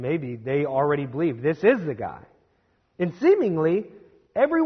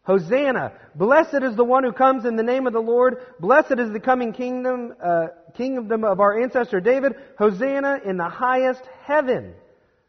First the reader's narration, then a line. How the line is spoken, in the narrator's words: They start to shout